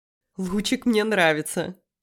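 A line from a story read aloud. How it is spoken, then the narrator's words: Laughing. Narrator (Russian): рассмеялась я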